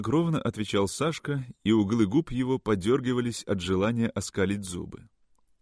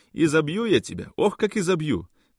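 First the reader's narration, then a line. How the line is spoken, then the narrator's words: Mother shouting. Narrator (Russian): кричала мать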